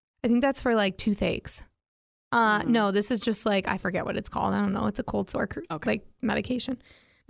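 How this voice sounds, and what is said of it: Tired, worn-out hoarse voice. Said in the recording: “I'm just tired. My voice is shot.”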